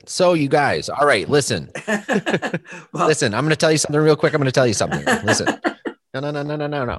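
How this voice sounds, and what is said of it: Michigan accent. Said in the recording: “you sound dead exotic with that accent ... the notorious Michigan accent”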